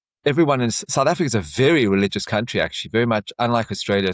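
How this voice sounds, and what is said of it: South African accent. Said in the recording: “I grew up in South Africa. You would have never guessed from the accent.”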